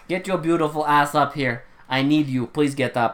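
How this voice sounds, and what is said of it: Fake accent, imitated dubbed director. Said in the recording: “This is the fake accent. ... This is a clearly dubbed scene and I have no idea how to do this accent. ... That's what he fucking sounds like.”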